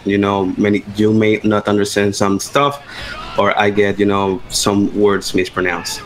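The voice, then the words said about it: Dominican-accented English. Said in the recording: “I'm from Dominican Republic... my accent”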